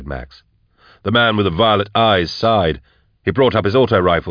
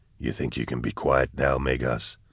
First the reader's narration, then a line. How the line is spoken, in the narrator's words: he whispered over his shoulder